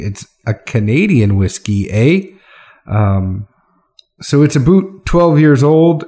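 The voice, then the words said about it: Put-on Canadian accent. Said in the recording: “I'm doing my Canadian accent.”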